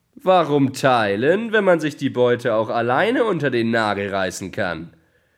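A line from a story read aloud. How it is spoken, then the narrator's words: Mocking shout. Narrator (German): rief der Dieb höhnisch aus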